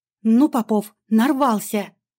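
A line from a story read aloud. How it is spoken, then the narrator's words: Through gritted teeth. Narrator (Russian): Вырвалось сквозь зубы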